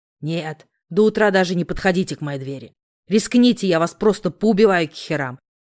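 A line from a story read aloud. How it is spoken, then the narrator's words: Beastly growl. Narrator (Russian): прорычал ненасытный зверь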